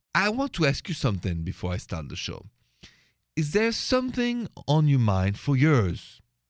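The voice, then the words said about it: French accent. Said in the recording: “The accent is French, français”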